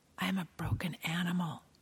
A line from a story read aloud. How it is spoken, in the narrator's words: she whispered